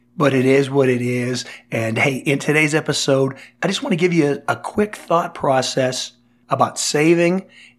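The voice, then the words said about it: Voice still recovering from illness. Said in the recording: “you can hear my voice is getting better, but I'm still far from 100%”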